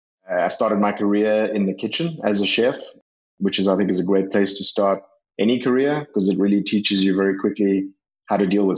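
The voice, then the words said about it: South African accent. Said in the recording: “you do have an accent and you're from you're from down under, but not the down under that we normally think about. You're from South Africa”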